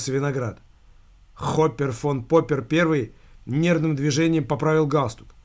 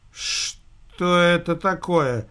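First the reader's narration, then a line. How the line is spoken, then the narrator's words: Confused mutter. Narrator (Russian): растерянно пробормотал шеф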